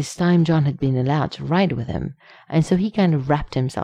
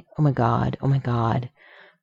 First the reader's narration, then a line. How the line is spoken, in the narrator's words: muttering